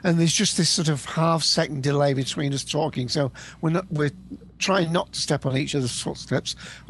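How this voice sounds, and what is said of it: British accent. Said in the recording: “you can probably tell from my accent, I'm in the UK”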